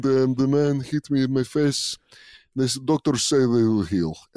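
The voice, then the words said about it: Put-on Russian accent. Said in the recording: “doing a Russian accent the whole time saying I was a Russian MMA fighter”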